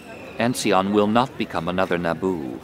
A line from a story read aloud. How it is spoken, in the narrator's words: her tone darkened